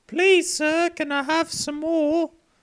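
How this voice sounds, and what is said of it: Oliver Twist style English accent. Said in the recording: “Oliver Twist accent”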